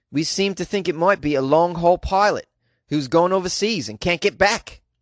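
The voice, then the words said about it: Weak put-on Australian accent. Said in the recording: “Is that an Australian accent? Probably not.”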